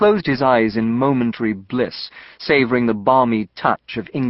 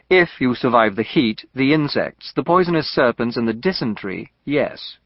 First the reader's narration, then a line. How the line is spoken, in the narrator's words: Gray said